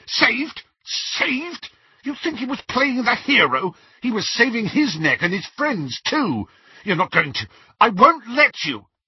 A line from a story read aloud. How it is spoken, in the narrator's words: Snape's whole face contorted, and he spluttered